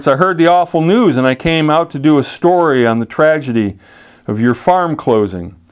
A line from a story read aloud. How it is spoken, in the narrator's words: He called out to Clarence